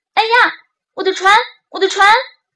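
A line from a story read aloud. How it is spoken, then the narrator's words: Boy's loud cry. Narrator (Chinese): 小男孩大叫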